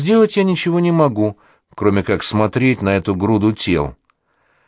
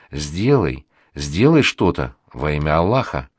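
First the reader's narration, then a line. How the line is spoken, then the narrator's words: Terrified muttering. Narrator (Russian): Расул в ужасе бормочет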